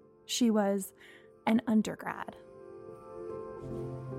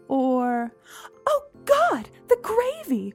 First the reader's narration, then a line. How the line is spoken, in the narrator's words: Mom shrieked